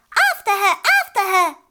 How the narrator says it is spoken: shrieked

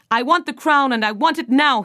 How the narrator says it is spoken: he yelled

